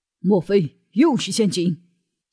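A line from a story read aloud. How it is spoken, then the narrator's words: Angry. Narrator (Chinese): 梁松怒道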